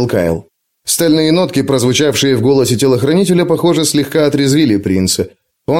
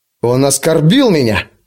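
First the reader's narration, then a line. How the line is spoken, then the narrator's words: Through clenched teeth. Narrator (Russian): процедил принц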